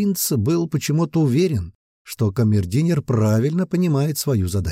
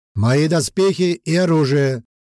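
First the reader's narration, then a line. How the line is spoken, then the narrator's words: Loud shout. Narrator (Russian): громко крикнул он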